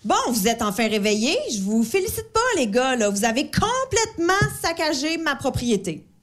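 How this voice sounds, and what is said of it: Funny Québécois-style accent. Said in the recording (French): “trouve pas qu'elle a un drôle d'accent, la fille ? ... Elle est suisse. ... Vous êtes au Québec”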